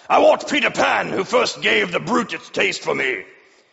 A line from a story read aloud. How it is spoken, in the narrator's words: Hook barked